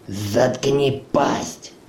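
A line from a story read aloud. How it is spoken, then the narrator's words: Breathed out. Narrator (Russian): выдохнул Ури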